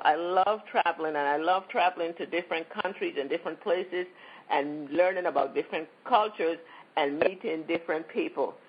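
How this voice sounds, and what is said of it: U.S. Virgin Islands accent. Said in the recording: “what's that accent? Where is she from? I'm from the Virgin Islands, St. Thomas, U.S. Virgin Islands originally.”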